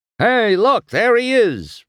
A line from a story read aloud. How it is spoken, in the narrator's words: one of the brothers cried